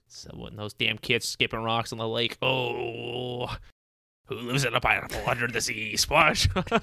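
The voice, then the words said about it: Old man voice into pirate accent. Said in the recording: “I was doing like a pirate accent there... old man turned into a pirate”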